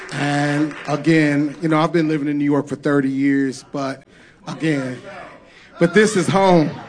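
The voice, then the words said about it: St. Louis accent. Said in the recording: “you still got an accent ... my St. Louis accent”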